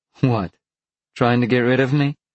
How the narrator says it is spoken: Roberta laughed

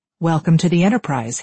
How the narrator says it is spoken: he says

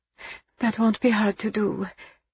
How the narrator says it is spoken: she murmured

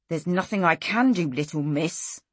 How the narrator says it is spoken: he hissed

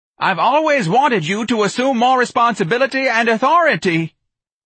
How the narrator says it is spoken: the office manager screamed

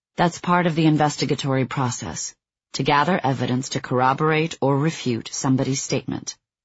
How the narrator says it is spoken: Bruckner calmly replied

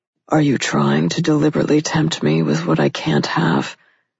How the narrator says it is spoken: The tone of his voice was hungry in a way that had nothing to do with food and everything to do with her

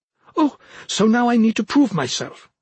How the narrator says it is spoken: she snapped

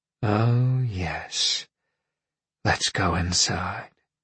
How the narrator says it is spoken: Roberta said in a husky voice

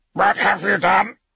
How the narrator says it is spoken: snapped

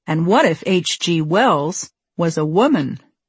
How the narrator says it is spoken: Jack said

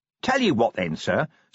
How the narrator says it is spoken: said Nobby cheerfully

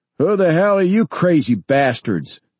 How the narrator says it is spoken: he shouted

